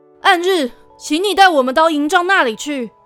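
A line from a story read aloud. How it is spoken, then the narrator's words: Deep breath, calling out. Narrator (Chinese): 乌拉德深吸一口气，对自己的白马喊道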